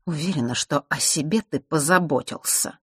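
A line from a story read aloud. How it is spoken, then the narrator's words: Through gritted teeth. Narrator (Russian): процедила сквозь зубы часовщица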